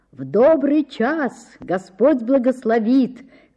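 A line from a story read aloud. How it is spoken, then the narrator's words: Grandmother shouting from afar. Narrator (Russian): кричала с крыльца бабушка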